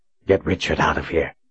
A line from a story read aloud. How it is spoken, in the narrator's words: he whispered urgently